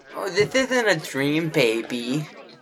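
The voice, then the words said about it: Man putting on a pretend lady's voice. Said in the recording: “why does this that have voice? To be a pretend lady? ... There's no way I can listen to my brother do that voice long term.”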